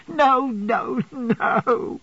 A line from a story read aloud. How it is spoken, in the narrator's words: cried little Emily, sobbing and shaking her head